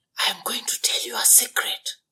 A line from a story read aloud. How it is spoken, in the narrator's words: whispered the dwarf